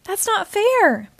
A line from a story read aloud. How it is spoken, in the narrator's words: Peter and I cried